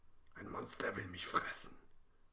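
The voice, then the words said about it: Whispering. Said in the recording (German): “flüstert Lena”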